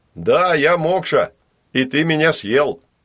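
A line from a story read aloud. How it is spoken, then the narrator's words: Reproachful low drone. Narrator (Russian): прогудел он укоризненно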